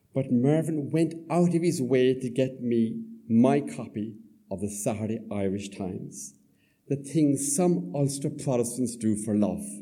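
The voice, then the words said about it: Southern Irish accent. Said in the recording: “my Southern Irish accent”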